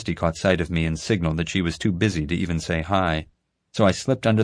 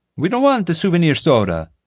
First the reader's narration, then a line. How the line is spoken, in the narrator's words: a tourist exclaimed